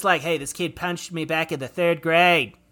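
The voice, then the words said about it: Mel Gibson impression, Australian accent. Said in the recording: “he has an Australian accent ... it was Australian. So pretty good ... it came off a little Reagan-y or maybe Nixon ... Mel Gibson has an Australian accent ... is he trying for Boston? ... it's Mel Gibson, so he's doing an Australian accent”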